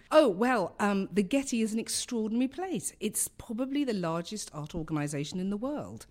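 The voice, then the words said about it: London English accent. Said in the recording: “I come from London, as you can tell by my accent”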